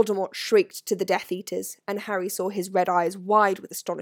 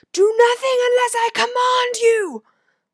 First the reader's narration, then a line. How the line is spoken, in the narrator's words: Voldemort shouted to the Death Eaters